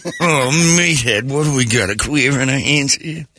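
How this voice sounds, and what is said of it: Imitates another person's voice. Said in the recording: “every time you do it, I hear Carol O'Connor.”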